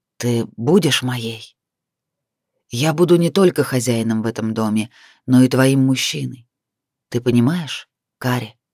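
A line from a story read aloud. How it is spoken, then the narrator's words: Hoarse male voice. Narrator (Russian): тяжело дышали, мужчина хрипло произнес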